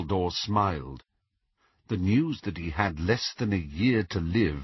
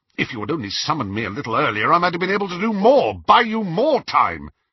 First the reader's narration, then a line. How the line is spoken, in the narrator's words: said Snape furiously